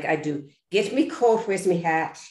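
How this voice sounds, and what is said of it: Put-on Irish accent. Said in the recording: “I'm playing a male, which is fine, but an Irish cop ... I was terrified that I was lose the Irish accent”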